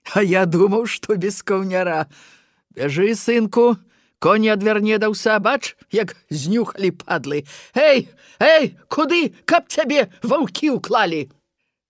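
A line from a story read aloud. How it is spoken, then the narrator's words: Loud voice over wind. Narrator (Belarusian): Голас Тамашоў гучна разыходзіўся з ветрам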